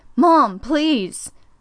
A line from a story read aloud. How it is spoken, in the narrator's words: shouted again